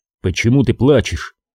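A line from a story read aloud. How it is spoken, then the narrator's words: Murmured. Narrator (Russian): пробормотал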